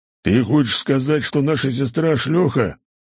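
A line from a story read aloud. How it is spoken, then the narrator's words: Huge man's growl. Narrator (Russian): прорычал один из здоровяков, метра два каждый и вширь метра полтора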